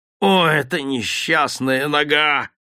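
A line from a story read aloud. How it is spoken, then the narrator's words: Sick man's groan. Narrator (Russian): простонал больной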